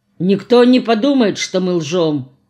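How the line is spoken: Gloomy assurance. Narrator (Russian): мрачно заверил Харитон

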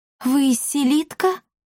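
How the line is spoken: Shocked breathless. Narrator (Russian): потрясенно выдохнула Дарина

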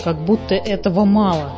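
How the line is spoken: Plain. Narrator (Russian): сказал андатор

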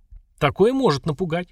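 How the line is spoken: Lord's amused grunt. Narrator (Russian): хмыкнул повелитель

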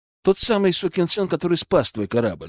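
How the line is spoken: Calm. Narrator (Russian): спокойно сказал

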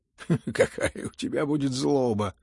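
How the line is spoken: Laughing. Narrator (Russian): засмеялся опять Рогожин

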